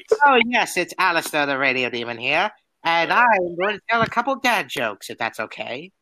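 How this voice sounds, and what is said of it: Character voice of Alistair. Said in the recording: “do an Alistair voice”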